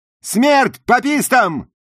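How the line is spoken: Shouted in Southern US accent. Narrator (Russian): крикнула Джуди, превосходно имитируя акцент жителей юга США

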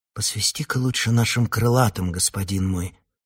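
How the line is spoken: Timid suggestion. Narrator (Russian): робко предложил Яхан

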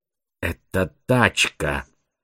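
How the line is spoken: Iron-hard female voice. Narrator (Russian): железным голосом констатировала девушка

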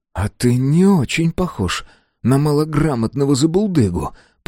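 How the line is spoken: Through clenched teeth. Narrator (Russian): процедил маркиз

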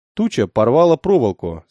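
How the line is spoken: Calm. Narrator (Russian): спокойно проговорил Мехбао

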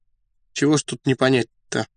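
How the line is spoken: Listless, upset, stammering. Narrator (Russian): вяло проговорил переодетый коллежский асессор, от расстройства даже начав заикаться

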